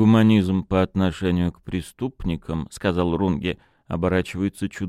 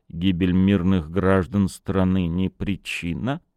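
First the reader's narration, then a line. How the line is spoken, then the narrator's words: Grim. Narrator (Russian): мрачно проговорил Рулин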